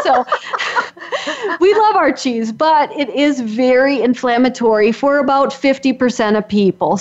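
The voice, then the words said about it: Wisconsin accent. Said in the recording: “I'm from Wisconsin, so if you can't tell with my accent”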